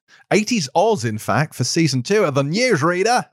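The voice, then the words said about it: Bad put-on Australian accent. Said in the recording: “Oh, that was terrible. sorry, I've gone full accent ... I apologize to all of our Antipodean listeners”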